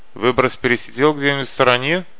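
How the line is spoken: Stranger's snort. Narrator (Russian): хмыкнул незнакомец

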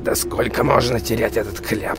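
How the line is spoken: Angry muttering. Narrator (Russian): Рассерженно пробормотал он

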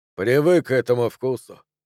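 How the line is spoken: Mumbling. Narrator (Russian): промямлил Джо

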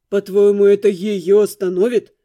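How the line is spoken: Hopeless snort. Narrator (Russian): Безнадежно фыркнул он

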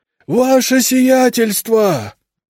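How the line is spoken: Shouting in strange voice. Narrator (Russian): не своим голосом кричал Игнат

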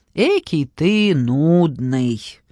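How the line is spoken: Disappointed demon drawl. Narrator (Russian): разочарованно протянул бес

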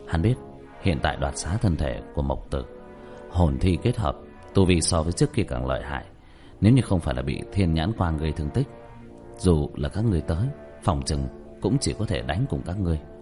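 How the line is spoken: Sighing. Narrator (Vietnamese): Diệp Thiếu Dương thở dài

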